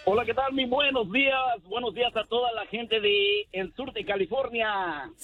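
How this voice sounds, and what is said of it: Deep polished radio announcer voice. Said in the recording (Spanish): “voz de locutor ... Tiene mejor voz que el Feyo y que el Pelón ... Este sí puede ser locutor.”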